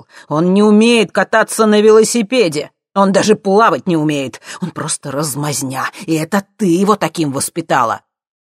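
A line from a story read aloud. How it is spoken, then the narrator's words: Furious self-righteous shouting. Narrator (Russian): Стив кричал, красный от злости, уверенный в своей правоте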